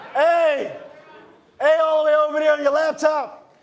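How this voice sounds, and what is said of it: Happy, excited shouting. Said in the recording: “He sounds so happy.”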